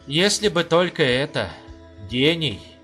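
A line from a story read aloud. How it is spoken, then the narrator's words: Envious sigh. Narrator (Russian): завистью вздохнул полковник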